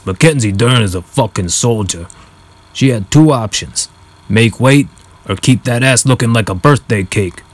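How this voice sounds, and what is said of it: Rough Joey Diaz impression. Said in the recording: “not a great impression”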